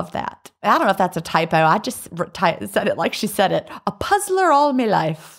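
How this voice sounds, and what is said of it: Usual voice. Nothing is said of it.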